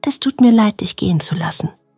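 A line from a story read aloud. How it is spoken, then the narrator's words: Whispering. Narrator (German): flüsterte Felix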